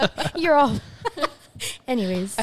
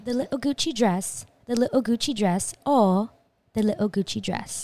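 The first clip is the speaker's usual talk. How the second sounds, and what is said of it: Put-on accent. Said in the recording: “you have to say it with an accent.”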